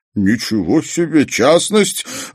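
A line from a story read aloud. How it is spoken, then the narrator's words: High booming laugh. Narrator (Russian): Вайтку с высоким гулким голосом рассмеялся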